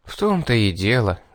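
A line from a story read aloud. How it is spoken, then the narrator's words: Sigh. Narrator (Russian): вздохнул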